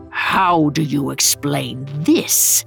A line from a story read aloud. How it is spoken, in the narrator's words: growled